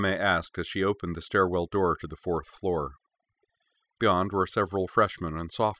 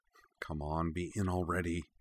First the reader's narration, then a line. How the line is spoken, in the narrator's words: Kaname muttered under her breath